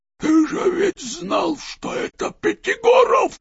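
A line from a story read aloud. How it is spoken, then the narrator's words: Hoarse undertone. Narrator (Russian): хрипел Евстрат Спиридонович в полголоса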